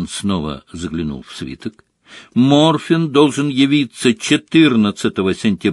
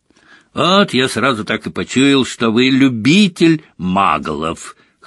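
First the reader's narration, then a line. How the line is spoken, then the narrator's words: Snorting grunt. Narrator (Russian): хмыкнул Мракс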